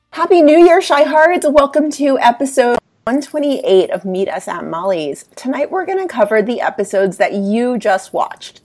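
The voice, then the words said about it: Stuffy, congested voice. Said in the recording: “I'm a little stuffy, so yes, if I sound weird, that's why, because I'm sick again”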